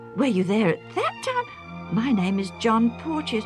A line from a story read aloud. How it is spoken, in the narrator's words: the younger man exclaimed in turn